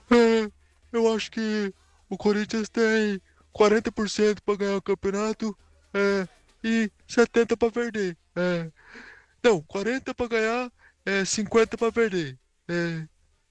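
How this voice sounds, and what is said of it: Poor imitation of another person's voice. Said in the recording (Portuguese): “o cara ainda é péssimo pra imitar o Casagrande. É muito ruim”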